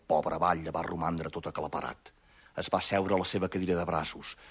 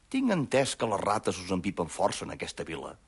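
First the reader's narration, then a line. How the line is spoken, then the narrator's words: Calmly. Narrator (Catalan): li va dir tranquil·lament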